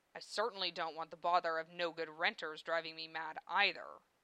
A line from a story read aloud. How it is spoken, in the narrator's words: Rezzo grumbled